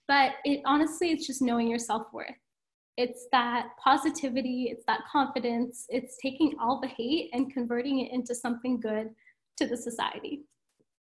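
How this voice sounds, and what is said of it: Slightly emotional voice. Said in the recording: “I'm going to get a little emotional.”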